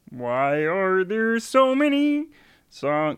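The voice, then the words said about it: Kermit the Frog character voice. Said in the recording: “my Kermit impression... Yeah, it's really good... Kermit's really easy... It's easy, but it is a good one.”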